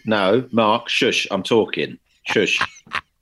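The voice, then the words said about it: Put-on North London accent. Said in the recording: “It talks like that. ... Which accent is that? ... It's sort of North London.”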